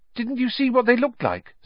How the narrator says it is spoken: said Hermione eagerly

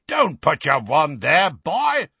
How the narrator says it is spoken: roared Moody

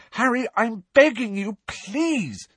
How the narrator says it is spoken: said Hermione desperately

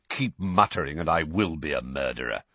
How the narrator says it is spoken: said Sirius irritably

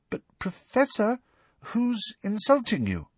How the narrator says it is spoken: asked Parvati timidly

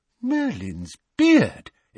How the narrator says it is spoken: exclaimed Mr

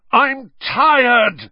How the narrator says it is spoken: he bellowed finally after nearly half an hour

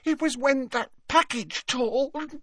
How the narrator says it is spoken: sobbed Leanne

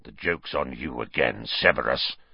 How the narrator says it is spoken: snarled Black

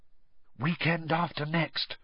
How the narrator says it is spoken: whispered Hermione

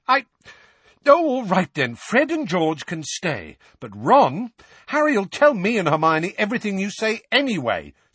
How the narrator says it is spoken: said Ron hotly

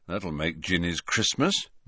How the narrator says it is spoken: muttered Fred

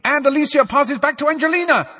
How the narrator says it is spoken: Lee shouted, Lee was trying to drown out the words of the song

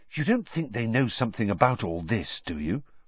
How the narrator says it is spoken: Hermione whispered

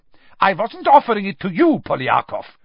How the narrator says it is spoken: snapped Karkaroff, his warmly paternal air vanishing in an instant

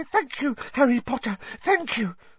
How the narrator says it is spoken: said Dobby breathlessly

